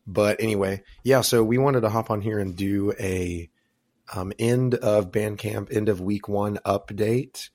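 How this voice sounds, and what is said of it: Slightly husky, sick-sounding voice. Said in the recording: “I'm a little bit under the weather still. I've been a little bit sick this last week, so my voice sounds a little bit sultry.”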